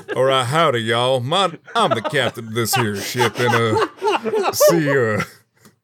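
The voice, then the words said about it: Put-on Southern US accent. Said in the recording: “I'm going to put on that southern accent I've been practicing”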